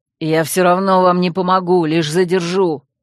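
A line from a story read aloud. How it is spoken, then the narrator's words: Angry growl. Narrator (Russian): зло прорычал Койл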